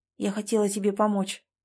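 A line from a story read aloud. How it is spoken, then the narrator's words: Quiet. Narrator (Russian): тихо сказала она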